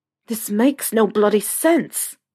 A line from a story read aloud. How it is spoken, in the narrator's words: Harry growled